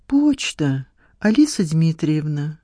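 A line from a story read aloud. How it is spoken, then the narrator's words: Timid. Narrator (Russian): робко обратился он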